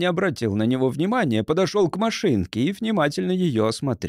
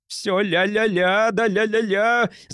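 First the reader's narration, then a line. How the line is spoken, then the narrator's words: Shrieking. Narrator (Russian): завизжал Йенси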